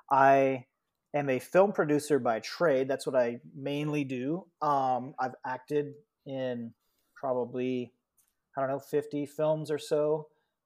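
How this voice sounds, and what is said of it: American accent. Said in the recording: “I'm an American, as most people can tell by my accent.”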